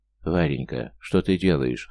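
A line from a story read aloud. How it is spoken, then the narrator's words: Hoarse wheeze. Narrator (Russian): хрипит он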